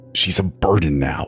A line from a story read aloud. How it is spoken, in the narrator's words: the spirit continued bitterly